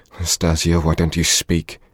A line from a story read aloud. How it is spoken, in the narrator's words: he said timidly at last in a weak voice